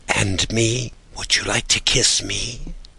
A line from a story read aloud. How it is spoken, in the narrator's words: she whispered, almost inaudibly, smiling and almost crying from excitement